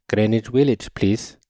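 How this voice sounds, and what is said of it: Thick South Asian accent. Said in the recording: “subconsciously muster a thick South Asian accent.”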